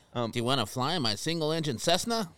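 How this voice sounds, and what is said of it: Old-timey pilot character voice. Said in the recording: “your Bed Check Charlie impression”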